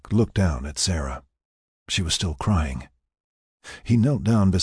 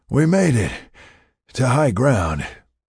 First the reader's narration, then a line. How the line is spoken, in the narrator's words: he panted